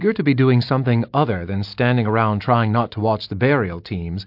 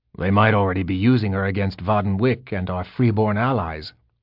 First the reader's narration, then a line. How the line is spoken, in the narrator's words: Oberyn growled